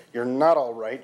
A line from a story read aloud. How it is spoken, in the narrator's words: Jean growled